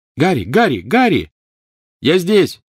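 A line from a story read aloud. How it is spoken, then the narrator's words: Shouting. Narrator (Russian): крикнул он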